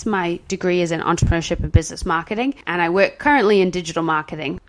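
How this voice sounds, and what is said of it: British-sounding accent with Southern twang. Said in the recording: “I think people might think you're British, but there's a bit of a twang ... it sounds British, but then you say something's really Southern”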